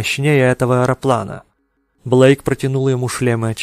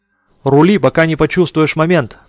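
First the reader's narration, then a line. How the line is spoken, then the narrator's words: Shouted. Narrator (Russian): прокричал он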